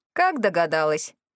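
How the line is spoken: Smirking grunt. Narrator (Russian): хмыкнул продавец

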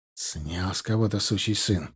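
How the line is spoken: Repeated through clenched teeth. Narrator (Russian): повторил Солодов сквозь зубы

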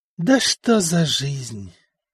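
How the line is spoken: Sorrowful sigh. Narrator (Russian): горестно вздохнул Стефан

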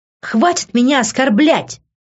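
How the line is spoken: Shrill scream. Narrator (Russian): завизжала я

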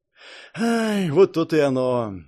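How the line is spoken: Sighing big man. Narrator (Russian): вздохнул здоровяк

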